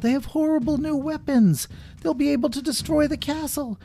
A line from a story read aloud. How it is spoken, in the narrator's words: Someone else yelled